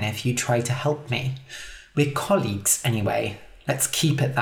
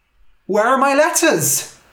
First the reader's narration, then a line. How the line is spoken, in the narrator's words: cried